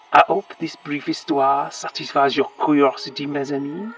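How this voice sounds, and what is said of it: Dodgy French accent drifting into Cockney. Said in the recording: “He still has a very dodgy accent ... it's terrible. He can't keep it up either. He keeps drifting in and out of something. ... Cockney, I think.”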